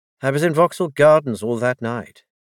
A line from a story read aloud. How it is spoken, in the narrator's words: he said slightly less harshly